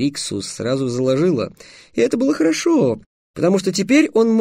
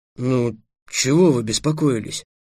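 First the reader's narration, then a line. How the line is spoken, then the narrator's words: Mumbling. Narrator (Russian): промямлил Эллен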